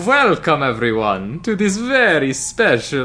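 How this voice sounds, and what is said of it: Spooky Dracula vampire voice. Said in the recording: “doing a Halloween voice, ... You're doing Dracula. ... accent work”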